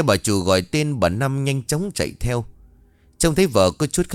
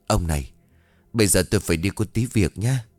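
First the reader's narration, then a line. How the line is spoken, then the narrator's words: Muttering. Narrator (Vietnamese): Bà Hai lẩm bẩm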